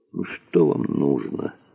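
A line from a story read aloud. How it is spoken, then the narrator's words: Tired question. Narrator (Russian): устало спросил Дронго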